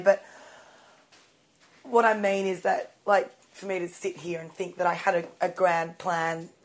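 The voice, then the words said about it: Raspy voice. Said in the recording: “my voice is so raspy”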